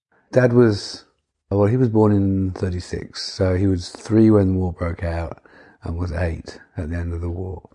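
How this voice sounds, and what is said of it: Yorkshire accent. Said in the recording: “that same old Yorkshire accent coming through”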